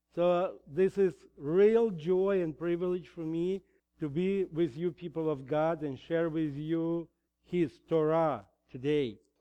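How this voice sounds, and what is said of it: Heavy Russian accent. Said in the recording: “I still better speak in Russian than in English. And you probably have noticed my heavy accent”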